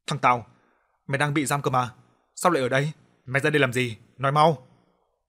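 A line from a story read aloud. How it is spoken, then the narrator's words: Loud angry shout. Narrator (Vietnamese): Ông Trung lớn tiếng quát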